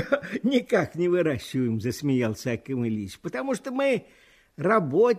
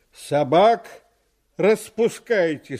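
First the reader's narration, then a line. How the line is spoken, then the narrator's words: Stern policeman. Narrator (Russian): сказал милиционер, строго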